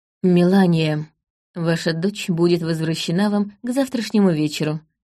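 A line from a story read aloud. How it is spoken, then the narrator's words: Quiet reply. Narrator (Russian): тихо ответил Доверт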